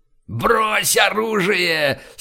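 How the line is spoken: Terrifying shout. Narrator (Russian): страшным голосом закричал Брежнев

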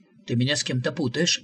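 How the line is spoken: Worried mutter. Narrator (Russian): озабоченно пробормотал посетитель

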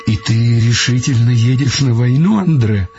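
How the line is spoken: Sighing. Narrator (Russian): сказала она, вздохнув

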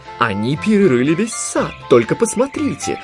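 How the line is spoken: Irritated exclamation. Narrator (Russian): раздраженно воскликнула Нани

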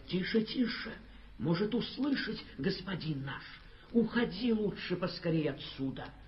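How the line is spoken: Frightened whisper. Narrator (Russian): пшеница испуганно зашептала

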